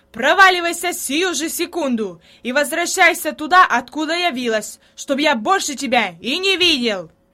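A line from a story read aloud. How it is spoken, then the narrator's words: Sudden yelling. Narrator (Russian): Внезапно он заорал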